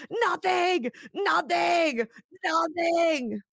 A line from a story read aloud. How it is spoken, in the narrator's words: Beth grabs the nail file and starts stabbing herself in the face, screaming